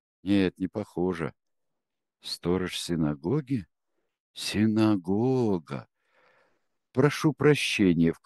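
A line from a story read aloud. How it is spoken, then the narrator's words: Ingratiating inquiry. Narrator (Russian): вкрадчиво осведомился он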